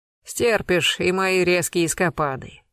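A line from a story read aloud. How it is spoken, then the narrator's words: Smirking snort. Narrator (Russian): хмыкнул Буланов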